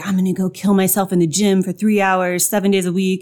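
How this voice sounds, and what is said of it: Bro-dude gym voice. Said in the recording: “I'm talking like a dude, bro.”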